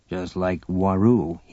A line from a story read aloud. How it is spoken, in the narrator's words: he muttered